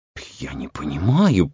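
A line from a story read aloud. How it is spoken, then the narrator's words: Muttered. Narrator (Russian): пробормотал Хедман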